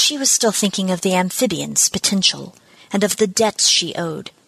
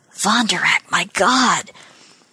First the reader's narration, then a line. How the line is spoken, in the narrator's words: Someone murmured